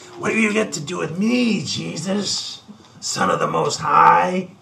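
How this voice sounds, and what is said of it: Exaggerated demon voice. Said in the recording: “that's my worst demon voice”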